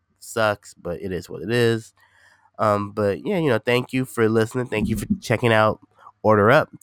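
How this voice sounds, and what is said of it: Nasal, congested voice. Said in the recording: “if I sound a little nasally, a little congested. I'm a little sick.”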